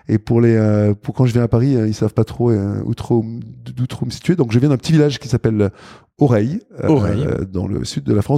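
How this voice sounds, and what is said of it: Mixed southern French and Belgian accent. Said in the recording (French): “On sent une petite teinte ... mon petit accent belge aussi ... j'ai une espèce de mix d'accent du sud, de d'accent belge”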